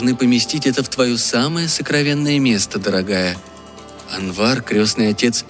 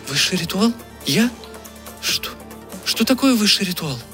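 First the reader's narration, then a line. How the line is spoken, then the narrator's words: Pleading. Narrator (Russian): взмолилась Дина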